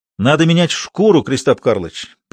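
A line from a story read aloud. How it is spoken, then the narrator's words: Exclamation. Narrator (Russian): воскликнул Ведерников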